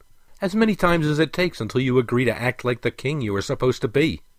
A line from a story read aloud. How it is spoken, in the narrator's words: snapped Prince Elengal